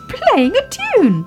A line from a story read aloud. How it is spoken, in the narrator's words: cried Baby Ted